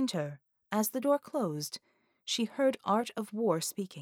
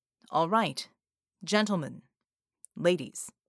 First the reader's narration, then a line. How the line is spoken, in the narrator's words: said in a firm, commanding voice